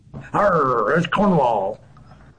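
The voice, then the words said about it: Put-on pirate accent. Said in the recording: “that classic pirate accent”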